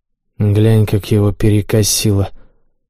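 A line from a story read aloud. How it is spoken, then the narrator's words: Whisper. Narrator (Russian): прошептал он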